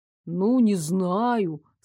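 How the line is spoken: Doubtful drawl. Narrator (Russian): с сомнением протянул Дарок

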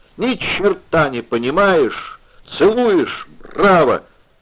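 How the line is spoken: Nasal, insolent piping whistle. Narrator (Russian): гнусаво и нахально засвистела флейта пиккола

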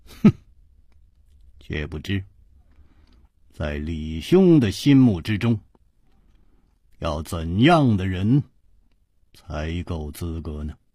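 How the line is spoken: Calm smiling. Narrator (Chinese): 楚留香声色不动，微笑着说

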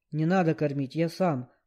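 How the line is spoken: Caterpillar grumbling. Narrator (Russian): проворчала гусеница

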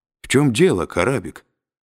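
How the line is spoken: Calm question. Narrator (Russian): спокойно спросил Фаркосиган

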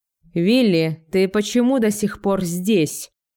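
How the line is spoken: Barking shout. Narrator (Russian): рявкнул Робин Гуд

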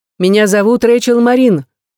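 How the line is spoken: Shouted through door. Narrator (Russian): крикнула сквозь дверь

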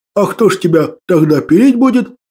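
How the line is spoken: Old man laughing. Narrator (Russian): хохотал дед

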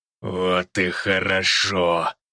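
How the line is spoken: Monstrous growl. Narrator (Russian): прорычало черное чудовище

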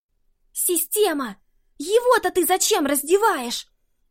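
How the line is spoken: Silent mental scream. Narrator (Russian): мысленно завопила девушка

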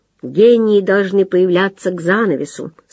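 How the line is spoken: Plain. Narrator (Russian): сказал

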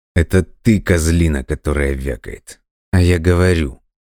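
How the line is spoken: Through gritted teeth. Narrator (Russian): сквозь зубы процедил Дима

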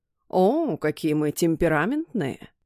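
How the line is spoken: Chuckling. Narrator (Russian): хохотнул второй мужчина

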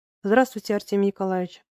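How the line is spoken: Sad, tender voice. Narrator (Russian): сказал ему Горенко грустным, ласковым голосом

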